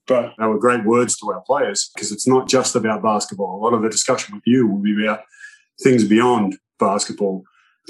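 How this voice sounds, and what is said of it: Australian accent. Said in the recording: “You can hear my accent. I'm not from around here. ... I am from Australia.”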